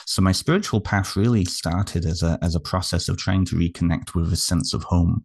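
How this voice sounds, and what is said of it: British accent. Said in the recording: “you can probably tell by my accent, I'm not Canadian... I'm originally from the United Kingdom”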